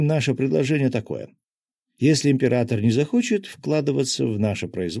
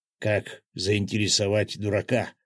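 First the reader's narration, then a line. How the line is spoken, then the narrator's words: Muttering under breath. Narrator (Russian): пробормотал себе под нос Свят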